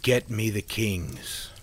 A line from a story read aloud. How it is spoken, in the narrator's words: the mayor said firmly